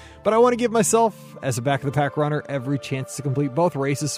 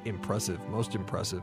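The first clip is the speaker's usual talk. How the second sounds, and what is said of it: Darth Vader impression. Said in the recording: “In my best Darth Vader voice.”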